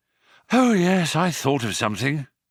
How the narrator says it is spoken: panted Ford

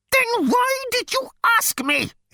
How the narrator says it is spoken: It screamed

